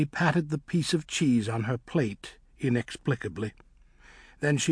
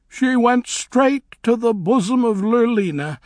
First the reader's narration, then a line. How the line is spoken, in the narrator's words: said Nanny, sobbing